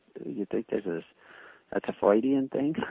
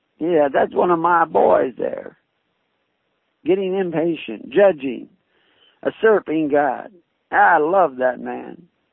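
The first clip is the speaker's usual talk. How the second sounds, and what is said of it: Imitates another person's voice. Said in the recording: “I start slipping into my Bill Clinton accent when I imitate the devil”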